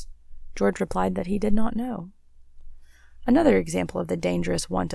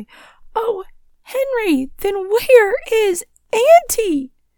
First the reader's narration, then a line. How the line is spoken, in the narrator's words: The maiden said wildly